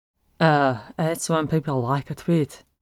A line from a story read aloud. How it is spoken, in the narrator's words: Hempel mumbled